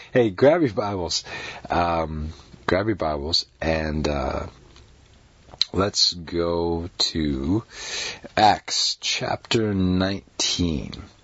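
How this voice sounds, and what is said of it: Slightly off, unwell-sounding voice. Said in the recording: “my voice is a little bit off. Been a slightly bit under the weather recently ... my voice is not all of what it is usually”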